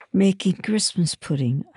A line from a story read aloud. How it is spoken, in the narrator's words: I sighed